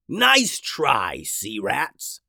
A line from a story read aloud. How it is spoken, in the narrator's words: growled the captain